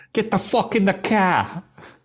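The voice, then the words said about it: Put-on regional accent, not very good. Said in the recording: “it's not my best accent, I'm not going to lie.”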